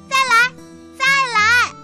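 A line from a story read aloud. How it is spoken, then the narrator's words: Shouting. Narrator (Chinese): 我的弟弟叫喊着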